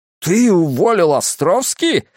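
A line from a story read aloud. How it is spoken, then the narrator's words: Shouting. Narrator (Russian): закричал Скип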